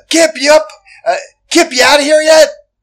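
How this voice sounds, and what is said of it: Screaming loudly. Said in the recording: “I'm screaming”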